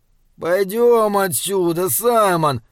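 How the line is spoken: Whimpering. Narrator (Russian): захныкал он

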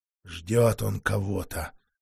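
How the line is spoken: Muttered through clenched teeth. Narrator (Russian): сквозь зубы процедил старший охотник

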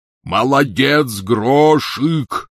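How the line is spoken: Shouted. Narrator (Russian): крикнул он в проем

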